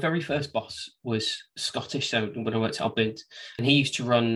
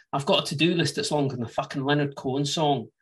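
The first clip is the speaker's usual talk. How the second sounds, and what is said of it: Weak put-on Scottish accent. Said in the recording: “I'm not very good at the Scottish accent... it's quite a difficult accent to get... what I say for Scottish is... pretending to maybe be Scottish”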